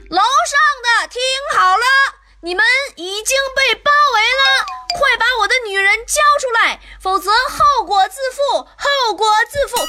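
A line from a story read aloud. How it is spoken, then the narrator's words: Shouting. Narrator (Chinese): 喊完话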